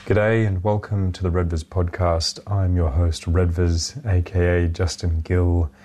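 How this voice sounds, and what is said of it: Hoarse, congested voice from a cold. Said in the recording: “my voice is shattered ... a bit of a cold infection. My throat has been like sandpaper the past couple of days. My sinuses are blocked”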